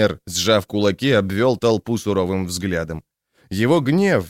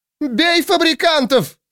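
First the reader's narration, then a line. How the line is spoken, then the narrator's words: Shrieking. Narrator (Russian): снова завизжала судья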